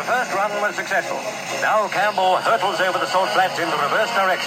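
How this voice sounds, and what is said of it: Proper, clipped English-sounding broadcaster accent. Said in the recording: “They always spoke so proper, sounded like Englishmen, even the Australian broadcasters at the time, sounded a clipped accent.”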